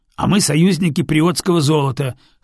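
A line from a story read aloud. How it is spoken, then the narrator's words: Snorting. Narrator (Russian): хмыкнул менсалиец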